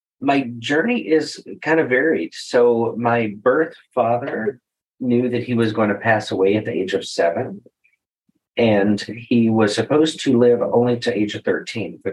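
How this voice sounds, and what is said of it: Texas accent. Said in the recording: “a lot of people recognize my accent from Texas”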